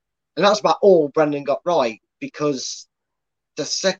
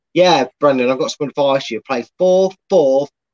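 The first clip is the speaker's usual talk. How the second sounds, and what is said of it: Poor put-on Scottish accent. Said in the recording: “suddenly Scottish ... I can't do his accent. I never can. It's never worse than it is ... I'm just pretending he's Scottish now”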